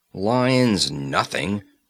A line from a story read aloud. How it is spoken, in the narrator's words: snorted Conan, his eyes blazing